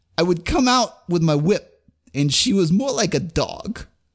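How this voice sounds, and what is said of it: Poor imitation of another person's voice. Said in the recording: “Christopher Walken accent. ... 1 out of 5. Terrible Christopher Walken.”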